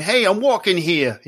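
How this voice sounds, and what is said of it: Put-on New York accent. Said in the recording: “whenever I think of a New York accent, I'm thinking”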